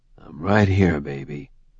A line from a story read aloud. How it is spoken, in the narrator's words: Jericho said softly, placing a steady hand on her shoulder to comfort her